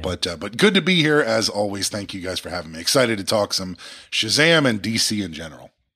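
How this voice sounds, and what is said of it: Sick, slightly altered voice. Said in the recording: “I don't quite exactly sound like myself ... I'm a little bit under the weather, so my voice sounds a little bit weirder than usual”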